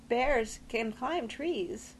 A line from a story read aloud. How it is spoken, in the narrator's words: Tess quavered